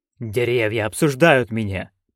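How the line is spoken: Duke's mutter. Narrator (Russian): пробормотал герцог Флем

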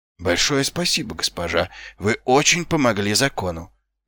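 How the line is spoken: Muttered. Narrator (Russian): пробормотал Ваймс

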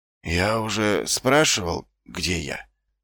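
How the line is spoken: Weak voice, asking. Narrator (Russian): слабым голосом поинтересовался Ваймс

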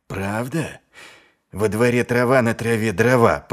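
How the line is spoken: Growling. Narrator (Russian): прорычал

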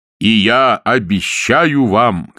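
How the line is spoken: Shouting. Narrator (Russian): крикнул он

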